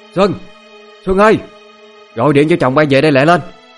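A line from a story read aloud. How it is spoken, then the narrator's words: Furious loud call. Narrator (Vietnamese): Quá tức giận, má lớn tiếng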